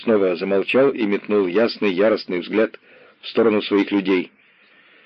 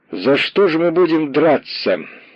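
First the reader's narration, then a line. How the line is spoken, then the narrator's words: Loud question to crowd. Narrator (Russian): громко на всю толпу спросил Махно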